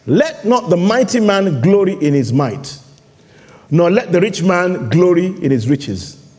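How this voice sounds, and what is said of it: Nigerian English accent. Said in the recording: “my Nigerian accent”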